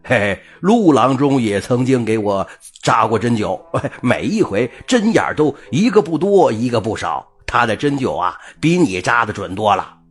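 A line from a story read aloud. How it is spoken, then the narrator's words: Carefree joking. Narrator (Chinese): 马大柱一向大大咧咧，他开起了玩笑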